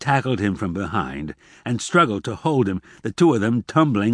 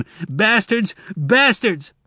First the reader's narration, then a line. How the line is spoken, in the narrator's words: screaming again